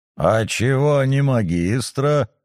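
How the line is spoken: Short laugh. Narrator (Russian): хохотнул Шувалов

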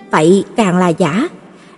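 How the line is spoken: Soft, quiet voice. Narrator (Vietnamese): Nghe vậy Trì Nhớ nhỏ giọng nói

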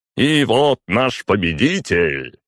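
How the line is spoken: Roaring. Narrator (Russian): взревел конферансье

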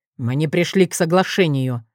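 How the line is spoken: Gloomy objection. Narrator (Russian): мрачно возразил Максимус

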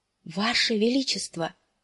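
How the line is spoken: Breathless faint exhale. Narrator (Russian): едва выдохнул он наконец

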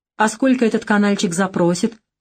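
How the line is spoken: Skeptical snort. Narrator (Russian): хмыкнул Геннадий Константинович

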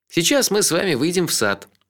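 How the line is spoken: Cheerful scout-leader tone. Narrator (Russian): бодрым тоном предводителя скаутов сказал

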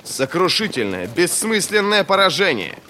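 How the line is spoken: Barked. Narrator (Russian): рявкнул Вест

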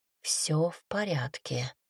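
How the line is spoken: Quiet. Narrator (Russian): тихо проговорила она

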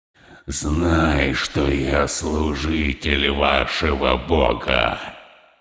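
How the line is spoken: Hiss. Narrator (Russian): Прошипел он

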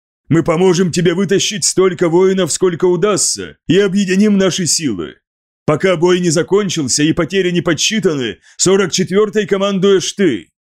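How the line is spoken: Short laugh. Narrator (Russian): Делвар коротко рассмеялся

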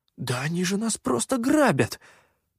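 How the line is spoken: Indignant hiss. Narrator (Russian): возмущенно прошипел попрыгун

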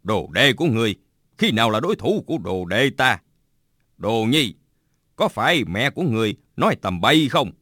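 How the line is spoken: Smiling. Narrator (Vietnamese): Bạch Tự Tại mỉm cười nói

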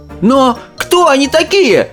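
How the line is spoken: Shouting. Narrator (Russian): закричал Шастер

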